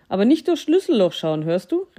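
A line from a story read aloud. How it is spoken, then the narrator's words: Mouse calling after someone. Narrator (German): rief die Maus hinter ihm her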